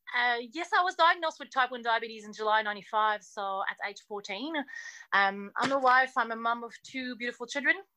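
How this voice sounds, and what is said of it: French-Canadian accent. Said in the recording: “I'm actually French-Canadian, born in Montreal, and I do speak French first... I sound a bit funny. That's my accent.”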